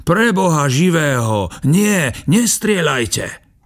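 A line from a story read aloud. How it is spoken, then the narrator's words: Screamed. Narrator (Slovak): Box skríkol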